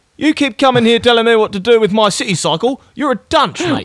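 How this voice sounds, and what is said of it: Put-on English bully accent. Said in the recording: “Or like that old Australian accent. ... It's the English bully from last week. He's back.”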